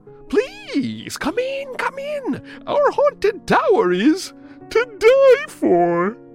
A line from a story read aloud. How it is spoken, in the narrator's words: laughed in a dry, crackly voice